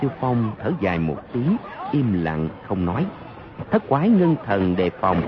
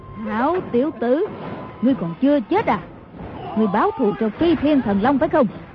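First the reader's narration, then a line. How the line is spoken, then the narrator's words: Loud laughing shout. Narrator (Vietnamese): Mai Siêu Phong cười lớn kêu lên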